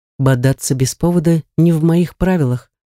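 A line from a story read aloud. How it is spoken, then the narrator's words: Calm remark. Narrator (Russian): спокойно заметил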